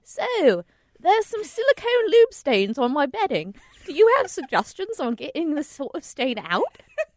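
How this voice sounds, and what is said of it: Put-on Cockney accent. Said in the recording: “should I do like a voice, like an accent? ... Oh, yes, you can do an accent. ... Are you a chimney sweep from Mary Poppins?”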